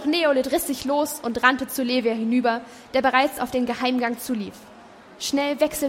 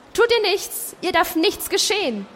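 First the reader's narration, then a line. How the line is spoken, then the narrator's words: Someone calling out. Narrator (German): rief jemand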